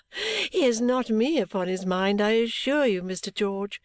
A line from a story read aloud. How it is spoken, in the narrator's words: said I, laughing